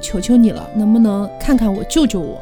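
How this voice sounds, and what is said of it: Very weak, feeble voice. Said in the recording (Chinese): “非常的微弱的声音说”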